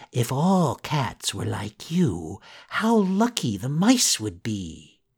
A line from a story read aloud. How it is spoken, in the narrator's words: Pinocchio, almost in tears himself, whispered in the cat's ear